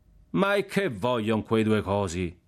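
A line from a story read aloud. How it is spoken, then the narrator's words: Shout from crowd. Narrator (Italian): gridò una voce dalla folla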